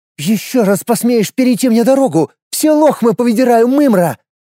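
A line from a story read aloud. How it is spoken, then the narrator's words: Angry shout. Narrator (Russian): Со злостью выкрикнула она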